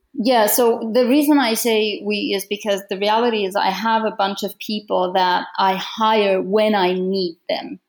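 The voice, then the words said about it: Foreign-accented English. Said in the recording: “I love your accent. So I think it's beautiful.”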